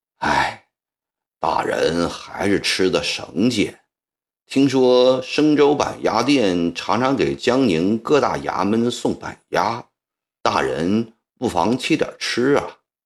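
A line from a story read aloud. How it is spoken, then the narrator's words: Sighing. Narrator (Chinese): 赵立文叹息道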